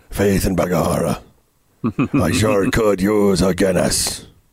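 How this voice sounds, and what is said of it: Imitates an Irish-accented voice. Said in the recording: “my Liam Neeson impression”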